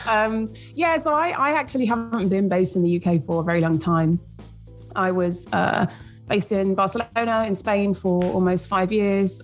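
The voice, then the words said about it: British accent. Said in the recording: “you've got a British accent”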